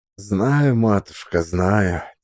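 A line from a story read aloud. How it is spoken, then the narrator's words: Quiet reply. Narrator (Russian): тихо ответил Максим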